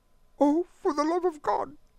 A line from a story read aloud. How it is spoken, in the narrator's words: she sobbed